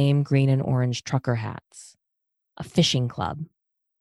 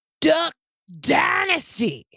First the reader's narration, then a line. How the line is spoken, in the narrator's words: Zan yelled